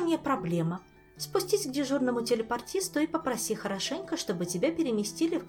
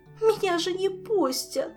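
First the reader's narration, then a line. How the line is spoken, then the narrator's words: Renewed sobbing. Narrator (Russian): с новой силой всхлипнула Селия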